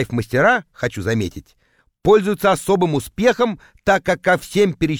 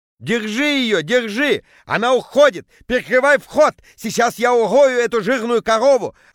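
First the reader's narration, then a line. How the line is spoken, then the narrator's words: Shouting. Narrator (Russian): орал Петя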